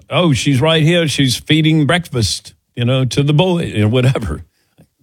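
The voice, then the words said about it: Imitates another person's accent. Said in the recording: “How was that accent?”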